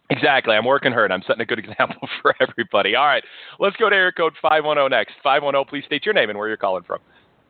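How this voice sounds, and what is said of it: Hoarse, slightly strained voice. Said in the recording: “slight laryngitis the last few days also, if anybody's picked up on that ... a slight case of laryngitis”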